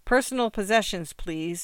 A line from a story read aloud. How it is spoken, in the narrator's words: the female cop's voice penetrated, repeating what she said and adding